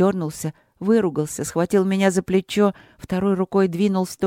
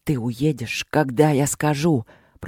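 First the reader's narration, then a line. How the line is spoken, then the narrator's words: Hissing. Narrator (Russian): прошипел он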